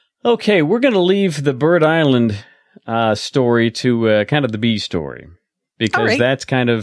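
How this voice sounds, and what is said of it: Usual voice. Nothing is said of it.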